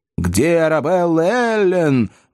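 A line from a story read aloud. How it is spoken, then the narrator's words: Several voices exclaiming. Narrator (Russian): воскликнуло несколько голосов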